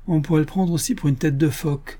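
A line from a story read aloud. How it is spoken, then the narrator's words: Laughing. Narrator (French): dit en riant Joe Bevins, le petit caporal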